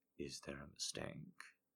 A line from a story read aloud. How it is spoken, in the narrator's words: He asked in a low voice